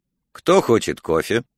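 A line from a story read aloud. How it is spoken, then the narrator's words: Composed question. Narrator (Russian): Марк взял себя в руки и спросил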